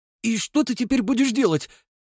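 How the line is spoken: Rapid patter. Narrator (Russian): протараторил паренек

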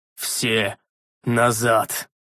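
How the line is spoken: Old man's growl. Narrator (Russian): Рыкнул старик-маг

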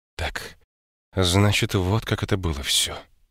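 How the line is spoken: Quiet. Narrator (Russian): тихо сказала она

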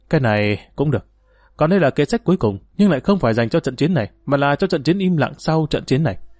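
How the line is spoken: Sighing, slow. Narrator (Vietnamese): Dương Lăng thở dài, chậm rãi gật đầu nói

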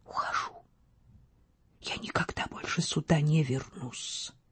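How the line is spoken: Whisper. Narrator (Russian): шепнула

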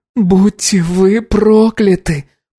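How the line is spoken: Moan. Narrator (Russian): простонала Анна

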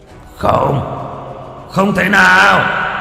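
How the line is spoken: Roaring creature. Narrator (Vietnamese): Con Long Quỳ ở bên dưới gầm thét lên

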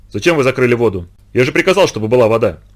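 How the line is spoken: Irritated question. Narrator (Russian): раздраженно спросил Микешин

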